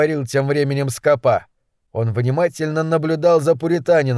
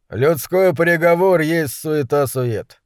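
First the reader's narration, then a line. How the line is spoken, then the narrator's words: Gloomy. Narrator (Russian): мрачно ответствовал Кейн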